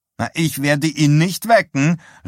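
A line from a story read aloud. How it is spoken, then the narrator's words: Called out. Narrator (German): rief sie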